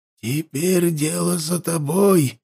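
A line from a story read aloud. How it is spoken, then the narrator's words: Quiet. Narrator (Russian): тихо сказал глава северного храма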